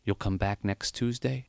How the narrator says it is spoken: whispered

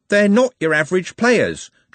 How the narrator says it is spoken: Trev blurted out

